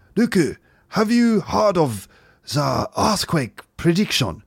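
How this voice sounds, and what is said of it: Dodgy put-on Japanese accent. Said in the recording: “my dodgy Japanese accent ... Is it rude for me to do a Japanese impression?”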